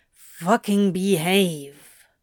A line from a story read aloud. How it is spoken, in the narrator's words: Crowley growled